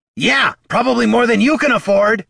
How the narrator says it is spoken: shouted Bert

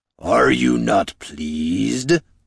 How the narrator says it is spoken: rumbled the great orc

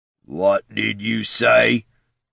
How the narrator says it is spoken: growled Cantrell's assailant

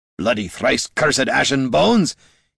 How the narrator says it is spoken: shouted as another trader bumped into him

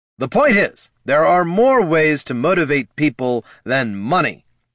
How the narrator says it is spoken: snapped the king

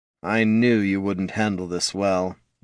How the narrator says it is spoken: Datar sighed

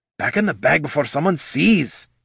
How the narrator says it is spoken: whispered

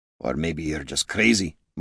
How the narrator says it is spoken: muttered Gorm

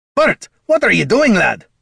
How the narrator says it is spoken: Gorm hollered

